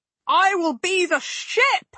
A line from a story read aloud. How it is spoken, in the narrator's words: Guyon fairly howled